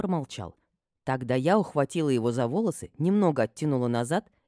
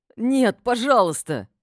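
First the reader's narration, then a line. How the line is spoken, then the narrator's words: Near sobbing. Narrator (Russian): Чуть ли не зарыдал он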